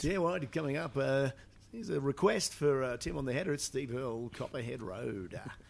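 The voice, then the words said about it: Put-on pop radio DJ voice. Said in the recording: “Did you have a pop radio voice? ... I think I did bung on a little bit of a... Sort of a... ... So I might have given it a bit of that.”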